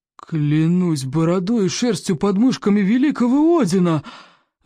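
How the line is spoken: Astonished exclamation. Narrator (Russian): воскликнул стойко обширный в изумлении

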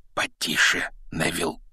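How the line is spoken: Whisper. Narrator (Russian): шепнул Рон

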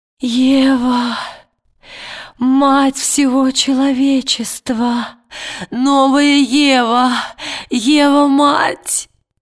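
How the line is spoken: Sobbing, blurted out. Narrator (Russian): рыдая, выпалила Лина Фельд

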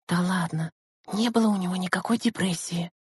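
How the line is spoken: Whispered reply. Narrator (Russian): шепотом отозвалась Лена

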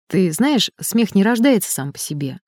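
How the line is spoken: Thoughtful. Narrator (Russian): задумчиво произнес профессор

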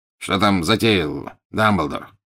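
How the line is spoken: Curt question. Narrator (Russian): отрывисто поинтересовался Скримджер

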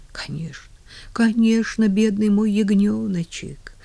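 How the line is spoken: Tender murmur. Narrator (Russian): ласково бормотала Нэнси

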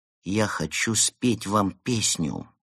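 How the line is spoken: Quiet. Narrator (Russian): тихо сказал Евгений

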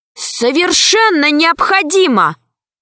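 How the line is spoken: Shouted reply. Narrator (Russian): закричала в ответ Алиса

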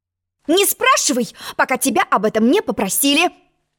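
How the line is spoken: Sharp interruption. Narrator (Russian): Резко перебила ее черная королева

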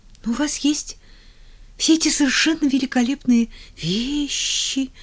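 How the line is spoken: Uncertain. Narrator (Russian): неуверенно добавила Поллианна

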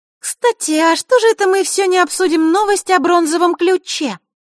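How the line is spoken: Innocent little voice. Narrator (Russian): невинным голосочком спросила Захарра

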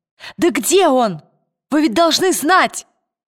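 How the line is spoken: Shouting. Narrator (Russian): крикнула Лира шеф-повару

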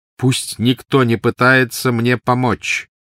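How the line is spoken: Loud. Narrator (Russian): громко сказал Гарри

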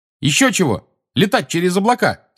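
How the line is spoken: Angry shout. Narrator (Russian): сердито крикнула ему Тонкс

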